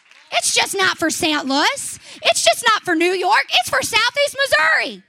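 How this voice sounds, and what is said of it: Rural American twang accent. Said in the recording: “all these hillbillies they call us, because you can hear my twang in my voice”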